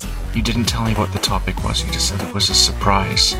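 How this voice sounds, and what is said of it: Whispering quietly. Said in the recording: “I'm recording very quietly. ... I don't know why I'm whispering.”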